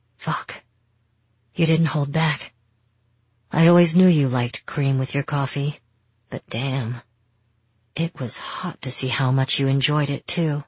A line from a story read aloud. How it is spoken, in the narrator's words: When there was nothing left but his panting, he said